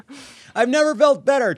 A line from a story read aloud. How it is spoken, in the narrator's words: Trump shouted